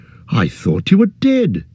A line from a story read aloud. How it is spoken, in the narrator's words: cried